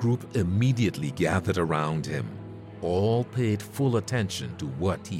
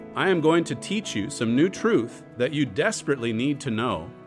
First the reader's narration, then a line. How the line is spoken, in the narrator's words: Paul said